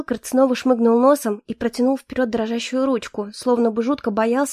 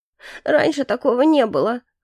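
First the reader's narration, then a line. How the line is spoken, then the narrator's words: Sobbing again. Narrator (Russian): вновь всхлипнул Билкарт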